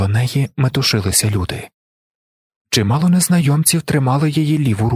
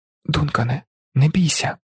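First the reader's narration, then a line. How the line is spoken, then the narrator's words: Whispered. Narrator (Ukrainian): прошепотіла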